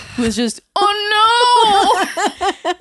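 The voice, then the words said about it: Yelled in a really sad voice. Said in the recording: “that's what I yelled ... In a really sad voice.”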